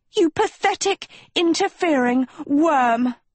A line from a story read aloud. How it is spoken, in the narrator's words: she screamed